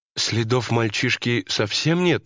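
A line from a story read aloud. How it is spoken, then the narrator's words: Uncertain question. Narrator (Russian): неуверенно спросила жена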